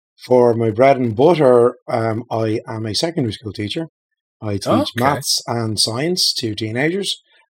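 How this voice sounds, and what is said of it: Irish Dublin accent. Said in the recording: “if you can't tell from the accent, I'm from Ireland, originally born and reared in Dublin”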